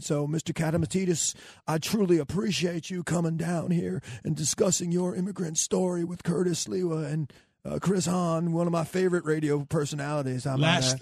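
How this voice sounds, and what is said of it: Imitates another person's voice. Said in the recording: “I could do a good Bill Clinton. ... I got myself a good Bill Clinton impersonation.”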